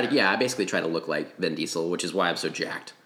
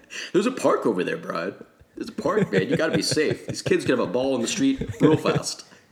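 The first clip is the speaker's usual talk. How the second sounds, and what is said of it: Imitates another person's voice. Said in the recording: “My Vin Diesel impression is spot on”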